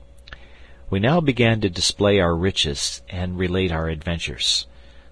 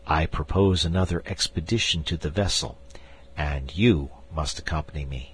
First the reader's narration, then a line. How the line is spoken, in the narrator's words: I added in a low tone, lest I should distress my wife